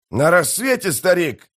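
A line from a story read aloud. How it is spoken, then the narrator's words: Shouted, warrior. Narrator (Russian): прокричал один из воинов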